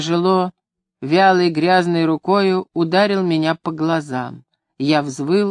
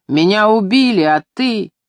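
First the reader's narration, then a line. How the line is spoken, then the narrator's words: Angry yell. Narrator (Russian): Он нелепо рассердился, заорал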